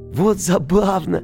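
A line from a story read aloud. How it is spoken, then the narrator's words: Ringing laughter. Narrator (Russian): маленький принц звонко засмеялся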